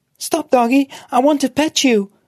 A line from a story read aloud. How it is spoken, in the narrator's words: she pleaded